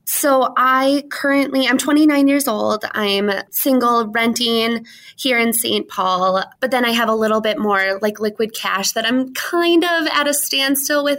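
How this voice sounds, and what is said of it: Noticeable accent. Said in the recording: “I'm loving this accent so much”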